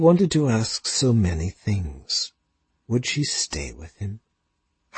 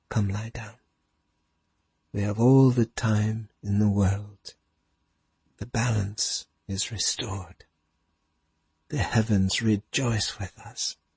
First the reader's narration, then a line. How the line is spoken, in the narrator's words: she said softly